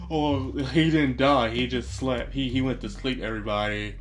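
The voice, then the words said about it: Silly dumb put-on voice. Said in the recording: “you can hear the dumb voice”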